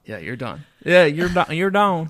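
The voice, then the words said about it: Put-on southern American accent. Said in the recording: “Oh, southern accent. ... You nailed it.”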